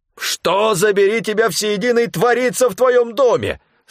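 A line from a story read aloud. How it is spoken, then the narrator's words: Yelling. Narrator (Russian): Сразу же заорал Стефан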